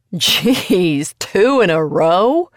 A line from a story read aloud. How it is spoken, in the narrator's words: The man with the cap laughed